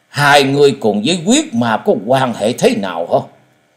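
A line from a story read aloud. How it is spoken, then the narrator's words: Fierce voice. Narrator (Vietnamese): Tan hồn thái tuế với giọng hung dữ nói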